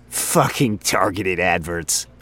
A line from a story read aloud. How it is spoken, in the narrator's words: Frink chuckled